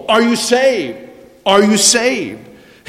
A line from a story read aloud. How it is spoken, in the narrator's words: Pastor Harper rushed up and down the decks of the ship, urgently asking people